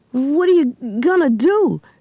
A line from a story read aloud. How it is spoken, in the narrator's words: stammered Russell